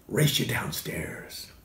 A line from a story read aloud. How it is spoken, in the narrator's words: whispered